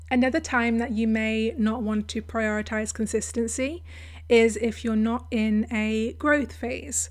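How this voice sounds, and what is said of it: Croaky, strained voice. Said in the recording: “my voice is quite croaky in this episode... I think my my voice has just gone”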